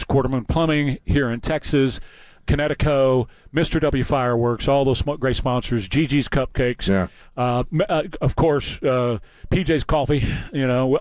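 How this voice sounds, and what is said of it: Out of breath, strained voice. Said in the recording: “I'm a little bit out of breath and a little bit out of voice ... Now you come back out of breath”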